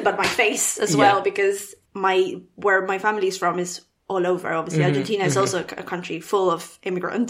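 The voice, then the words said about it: Foreign accent, sometimes mistaken for Italian. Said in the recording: “some people thought you were Italian ... countries that British people thought you were from when they heard your accent”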